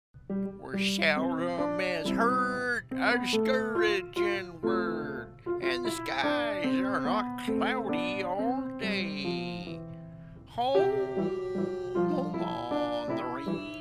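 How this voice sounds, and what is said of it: Sung impression of a cowboy singer. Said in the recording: “impersonate the famous Prairie Troubadour”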